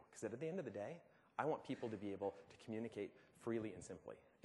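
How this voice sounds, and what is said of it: American accent. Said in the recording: “my American accent.”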